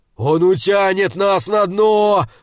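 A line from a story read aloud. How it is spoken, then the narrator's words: Terrified roar. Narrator (Russian): взревел Хюмер в ужасе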